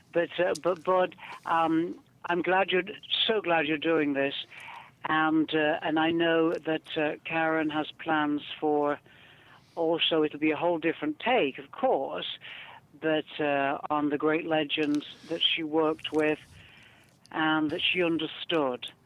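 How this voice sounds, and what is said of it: Northern English accent. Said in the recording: “It's my northern English accent.”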